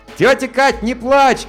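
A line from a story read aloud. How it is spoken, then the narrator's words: Shouting. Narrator (Russian): крикнул я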